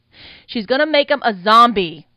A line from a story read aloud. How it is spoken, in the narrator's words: Mooch hollered